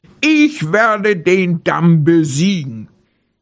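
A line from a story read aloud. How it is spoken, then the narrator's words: Sudden bear roar. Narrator (German): plötzlich brüllte der Bär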